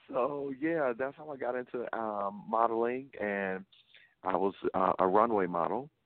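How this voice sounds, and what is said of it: Noticeable Southern US accent. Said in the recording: “you have an accent. ... I'm from the South. I'm from Louisiana. ... it is very noticeable.”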